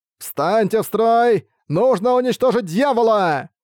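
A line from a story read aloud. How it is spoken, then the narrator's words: Old man shouting. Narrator (Russian): прокричал старый даос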